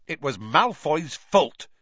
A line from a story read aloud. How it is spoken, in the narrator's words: snapped Dean Thomas